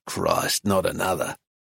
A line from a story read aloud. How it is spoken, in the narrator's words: Flynn mutter